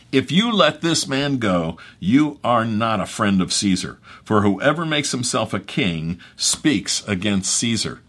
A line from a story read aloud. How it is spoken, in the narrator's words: the Jews cried out, saying